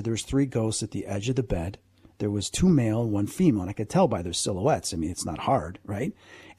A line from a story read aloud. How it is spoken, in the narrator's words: they were whispering